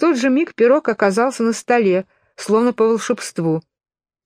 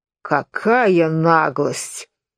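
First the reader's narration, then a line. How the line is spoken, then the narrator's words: Low rich voice. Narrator (Russian): сказал пирог низким сочным голосом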